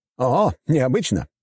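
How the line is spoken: Surprised exclamation. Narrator (Russian): удивленно воскликнул Николя

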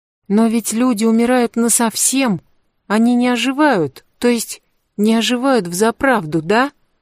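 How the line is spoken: Timid question. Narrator (Russian): Робко спросила Фаун

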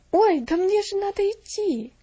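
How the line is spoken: Frightened exclamation. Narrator (Russian): воскликнула Мирианна испуганно

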